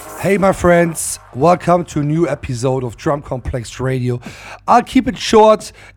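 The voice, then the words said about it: Hoarse, partly lost voice. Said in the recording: “As you can hear, I lost my voice a little bit.”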